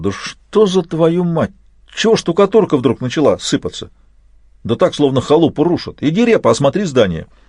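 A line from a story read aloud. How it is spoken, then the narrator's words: Exclaiming. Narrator (Russian): Он воскликнул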